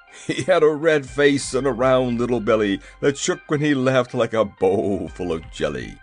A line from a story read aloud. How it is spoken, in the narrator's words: quoth the monarch in a pleasant voice